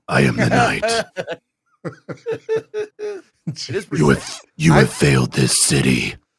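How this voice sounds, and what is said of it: Raspy Kevin Conroy Batman impression. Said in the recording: “can I interest you in some cigarettes so your voice is always that same way? ... I remember Kevin Conroy.”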